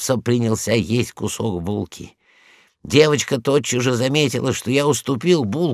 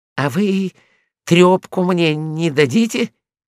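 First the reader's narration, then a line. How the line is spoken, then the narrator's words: Timid question. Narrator (Russian): Мопса робко спросил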